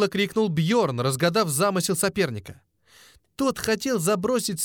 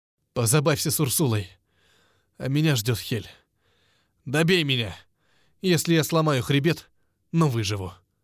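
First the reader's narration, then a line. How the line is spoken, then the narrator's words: Forced through clenched teeth. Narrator (Russian): Выдавил сквозь зубы Бьорн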